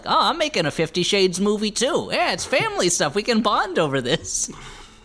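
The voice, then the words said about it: Imitates another person's voice. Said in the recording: “a really good Don Johnson impression. That's better than mine.”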